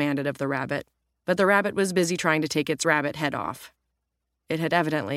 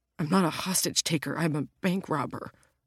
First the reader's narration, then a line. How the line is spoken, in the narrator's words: the bank robber whimpered